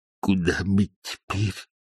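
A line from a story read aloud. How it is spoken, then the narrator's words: Barely audible question. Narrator (Russian): еле слышно спросил он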